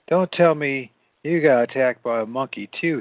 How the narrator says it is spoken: he said

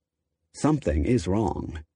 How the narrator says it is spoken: Lee muttered darkly, if vaguely

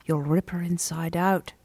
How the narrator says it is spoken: murmured the keeper

